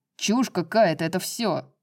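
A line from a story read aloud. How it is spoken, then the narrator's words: Growled. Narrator (Russian): прорычал Баксиан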